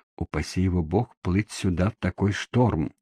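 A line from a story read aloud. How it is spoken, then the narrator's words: Whispered. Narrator (Russian): прошептал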